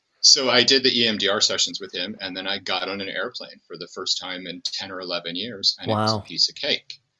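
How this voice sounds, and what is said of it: American accent. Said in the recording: “as you can tell from my accent, I'm an American”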